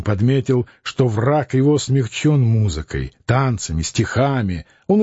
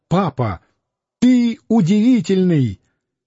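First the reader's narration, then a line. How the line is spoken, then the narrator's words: Shouted. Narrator (Russian): Борис закричал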